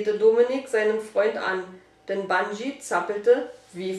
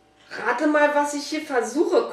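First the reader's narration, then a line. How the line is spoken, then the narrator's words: Panting. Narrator (German): keuchte Fabian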